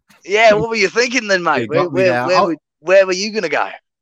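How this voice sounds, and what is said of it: Put-on Australian accent. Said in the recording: “I should have guessed from the accent”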